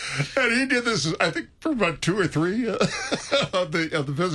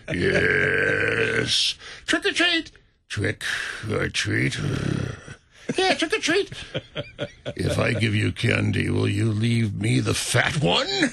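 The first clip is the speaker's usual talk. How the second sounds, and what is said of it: Deep put-on voice. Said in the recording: “He had this deep voice.”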